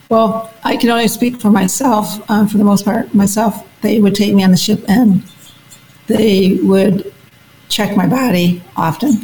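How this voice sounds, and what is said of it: Strained, fading voice. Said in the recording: “Sorry, I'm losing my voice.”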